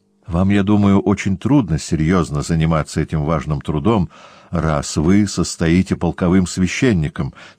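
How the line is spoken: Plain. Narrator (Russian): сказал отец Филипп

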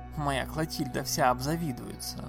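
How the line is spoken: Woman's grumble. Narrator (Russian): проворчала другая дама

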